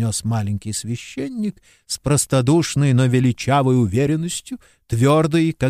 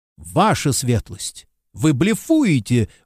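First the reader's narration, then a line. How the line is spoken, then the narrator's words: Exclaimed. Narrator (Russian): воскликнул я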